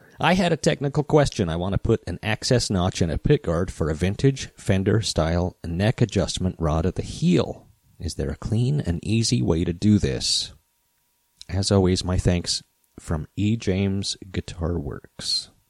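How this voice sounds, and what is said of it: Slightly strained, throaty voice. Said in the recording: “Let me clear my throat ... my voice is still suffering just a bit”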